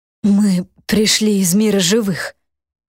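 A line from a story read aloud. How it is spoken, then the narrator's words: Strained, forced out. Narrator (Russian): с трудом выдавил он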